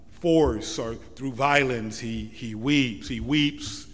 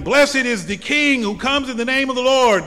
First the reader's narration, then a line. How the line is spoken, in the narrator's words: the same crowd that shouts that will on Good Friday assert